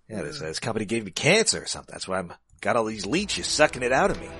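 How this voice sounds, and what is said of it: Bad impression of another person's voice. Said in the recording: “My Willem Dafoe impression is bad”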